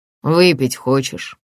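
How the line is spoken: Sighing. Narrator (Russian): Джеймс вздохнул

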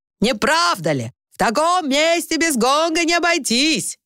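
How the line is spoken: Almost shouting over gong. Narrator (Russian): почти кричал он, потому что гонг, при первом ударе и так звучный, с каждым новым ударом гудел все громче

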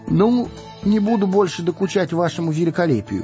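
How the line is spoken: Rapid chatter. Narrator (Russian): затараторил он

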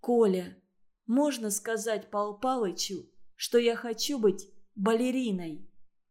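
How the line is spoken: Whispering. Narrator (Russian): снизив голос до шепота, сказала

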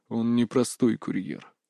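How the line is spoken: Quiet, steely voice. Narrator (Russian): тихо проговорил Рейк стальным голосом

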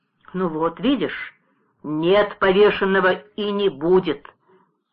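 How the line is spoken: Firm, then relieved sigh. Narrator (Russian): твердо сказал, глубоко с облегчением вздохнул

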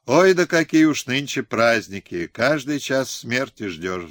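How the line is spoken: Sighing. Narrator (Russian): вздохнула

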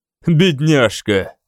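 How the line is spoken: Laughing. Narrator (Russian): он засмеялся

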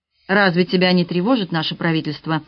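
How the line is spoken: Plain. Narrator (Russian): спросил капитан

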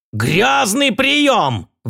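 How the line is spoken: Roaring. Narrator (Russian): взревел

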